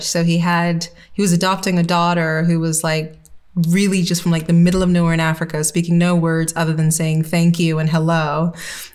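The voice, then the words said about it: Mixed, confused accent. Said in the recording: “I have what I call a confused accent.”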